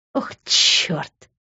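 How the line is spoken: Strained, forced words. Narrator (Russian): выдавила из себя Рита

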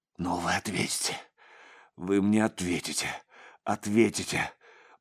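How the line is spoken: Sobbing, gasping mutter. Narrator (Russian): бормотал со всхлипом, втягивая режущий горло воздух

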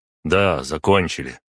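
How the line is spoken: Curt. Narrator (Russian): отрывисто сказал он

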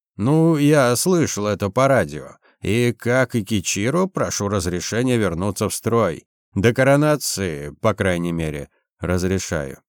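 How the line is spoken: Plain. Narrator (Russian): ответил я

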